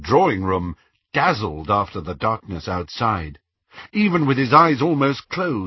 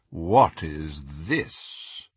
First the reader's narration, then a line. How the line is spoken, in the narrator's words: The dreadfully familiar, drawling voice of Lucius Malfoy